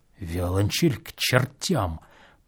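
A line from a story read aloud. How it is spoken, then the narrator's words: Quick barely audible mutter. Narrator (Russian): пробормотал он сквозь зубы быстро, чуть слышно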